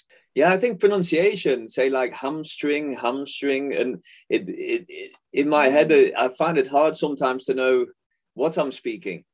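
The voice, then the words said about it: English accent with Dutch influence. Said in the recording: “it's become a hybrid over the years ... I have a lot of Dutch in my English accent. I think I probably got more Dutch in my English than I do English in my Dutch.”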